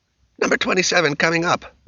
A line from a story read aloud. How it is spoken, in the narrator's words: Roger barked